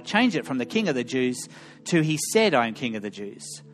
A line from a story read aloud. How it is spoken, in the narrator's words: Pilate replied